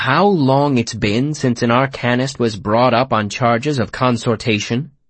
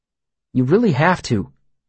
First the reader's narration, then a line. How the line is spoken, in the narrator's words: Sim said earnestly